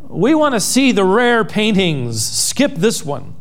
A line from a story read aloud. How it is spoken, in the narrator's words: a voice in the back of the room called out